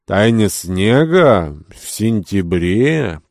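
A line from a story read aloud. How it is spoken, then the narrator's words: Drawn-out question. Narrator (Russian): протянул Кирабан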